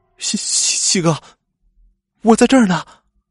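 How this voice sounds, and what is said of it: Trembling, stammering frightened voice. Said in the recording (Chinese): “用颤抖的声音说”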